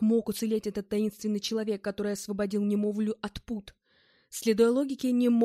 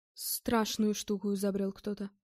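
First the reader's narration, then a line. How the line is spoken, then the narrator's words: Muttered. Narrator (Russian): пробормотал Богомазов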